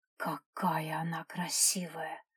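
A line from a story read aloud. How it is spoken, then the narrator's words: Enchanted whisper. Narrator (Russian): прошептала Наташа, завороженно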